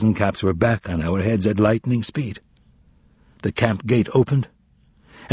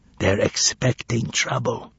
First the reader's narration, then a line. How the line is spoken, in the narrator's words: whispered Juliak